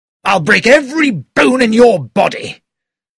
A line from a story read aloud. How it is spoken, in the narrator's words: He shouted at Poirot